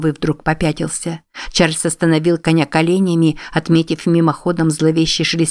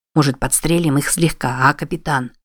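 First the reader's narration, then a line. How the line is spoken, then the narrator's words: Whispering. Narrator (Russian): Снова зашептал Дуан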